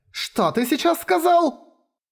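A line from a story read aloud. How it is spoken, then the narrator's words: Shout. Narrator (Russian): Закричала девушка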